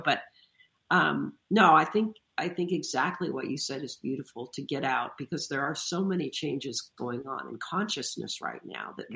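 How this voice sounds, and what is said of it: Voice strained by a cold. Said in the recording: “excuse my voice, because I've been fighting this cold for a while”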